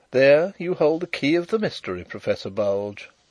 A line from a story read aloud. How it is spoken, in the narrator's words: interposed Carrados quietly